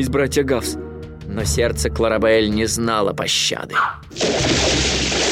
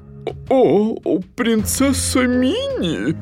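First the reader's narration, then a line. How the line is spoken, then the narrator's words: Stammering, forced out. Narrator (Russian): Заикаясь, она выдавила из себя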